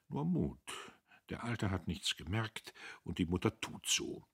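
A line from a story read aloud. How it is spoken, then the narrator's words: Quiet male voice. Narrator (German): Er sagte leise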